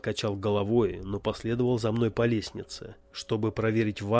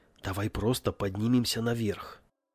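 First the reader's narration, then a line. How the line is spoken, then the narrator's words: Whisper. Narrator (Russian): прошептал я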